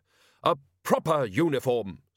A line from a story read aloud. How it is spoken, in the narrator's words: snapped the woman